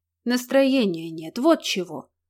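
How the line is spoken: Grumbled reply. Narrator (Russian): пробурчал в ответ

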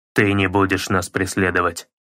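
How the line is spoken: Stern, stony-faced. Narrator (Russian): грозно произнес он с каменным лицом

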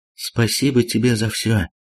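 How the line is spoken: Soft whisper. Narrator (Russian): тихо прошептала она

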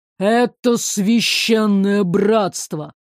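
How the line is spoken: Through gritted teeth, hateful. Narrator (Russian): процедил он сквозь зубы, ненавидя слишком громкий и издевательский яркий мир, полный бесчувственных людей

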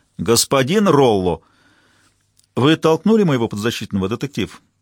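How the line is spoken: Plain. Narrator (Russian): спросила Кинлан

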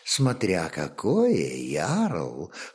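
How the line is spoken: Chuckling. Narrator (Russian): хохотнула Альхвильд

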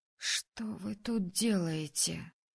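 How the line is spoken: Hoarse wheeze. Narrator (Russian): просипела я

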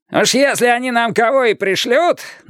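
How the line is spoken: Parting shout. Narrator (Russian): напоследок крикнул Каттер

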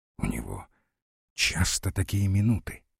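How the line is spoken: Whispered question. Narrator (Russian): спросил шепотом генеральшу Подозеров

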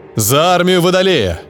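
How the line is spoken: Shout. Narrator (Russian): прокричал сэр Эладор

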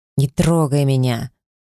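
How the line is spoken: Hiss. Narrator (Russian): прошипел этот неблагодарный засранец

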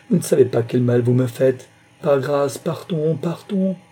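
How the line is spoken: Heartbroken cry. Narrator (French): s'écria-t-elle d'une voix navrée

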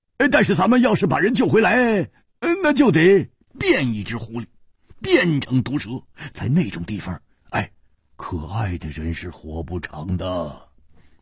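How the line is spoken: Roaring. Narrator (Chinese): 他又大吼起来

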